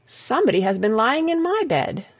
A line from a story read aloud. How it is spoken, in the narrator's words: said the Middle Bear, in her middle voice